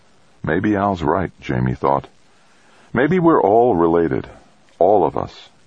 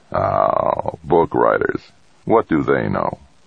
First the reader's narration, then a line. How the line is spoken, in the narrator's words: laughed gently and muttered